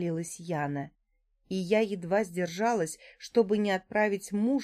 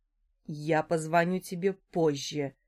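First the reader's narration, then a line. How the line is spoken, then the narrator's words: Through gritted teeth. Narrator (Russian): процедил Дима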